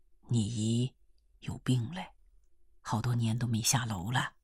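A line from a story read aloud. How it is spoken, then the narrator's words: Low voice. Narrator (Chinese): 风岛就不得不低声地告诉她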